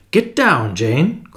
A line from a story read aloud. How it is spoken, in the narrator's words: cried Julius